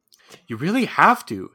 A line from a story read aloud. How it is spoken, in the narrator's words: Sim said earnestly